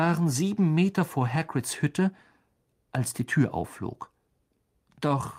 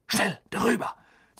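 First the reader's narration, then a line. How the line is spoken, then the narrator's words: Hissing. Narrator (German): zischte Harry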